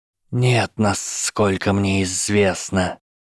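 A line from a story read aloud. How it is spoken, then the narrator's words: Hissed. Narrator (Russian): прошипел Гарри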